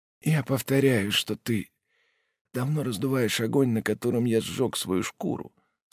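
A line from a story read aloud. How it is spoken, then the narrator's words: Weak-voiced objection. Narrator (Russian): слабым голосом возразил Жак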